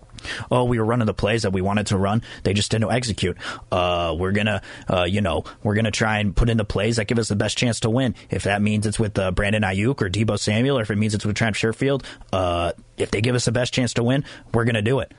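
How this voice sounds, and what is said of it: Kyle Shanahan impression. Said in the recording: “That was my Kyle Shanahan impression”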